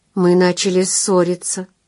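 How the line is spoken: Sad statement. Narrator (Russian): грустно констатировала она

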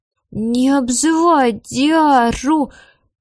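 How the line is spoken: Gloomy child's drawl, lisp gone. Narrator (Russian): мрачно протянул в ответ 4-летний мальчик и вдруг перестал картавить

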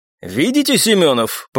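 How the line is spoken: Pointed snort, officer. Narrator (Russian): показательно хмыкнул лейтенант

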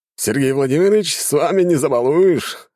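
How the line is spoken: Laughing. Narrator (Russian): рассмеялся Ролан

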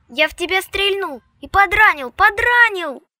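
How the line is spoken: Nagging shout. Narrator (Russian): въедливо кричал Вовка

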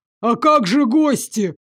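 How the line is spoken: Father shouting after someone. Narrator (Russian): крикнул ему в спину отец

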